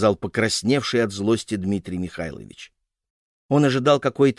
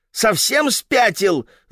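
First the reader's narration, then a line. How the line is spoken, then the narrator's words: Wife shouting. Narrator (Russian): закричала жена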